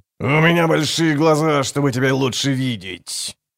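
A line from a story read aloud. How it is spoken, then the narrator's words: Gruff barking wolf. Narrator (Russian): рявкнул железный волчище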